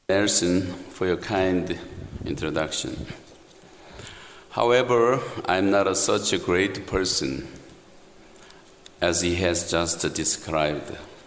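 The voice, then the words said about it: Thick foreign accent. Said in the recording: “this accent sometimes is very thick”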